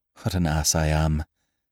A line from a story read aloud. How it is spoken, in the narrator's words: muttered